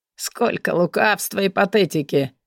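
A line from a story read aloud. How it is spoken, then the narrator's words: Hoarse laugh. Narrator (Russian): Хрипло рассмеялся Кристиан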